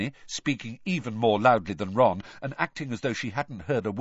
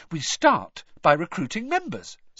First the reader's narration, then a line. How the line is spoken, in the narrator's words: said Hermione happily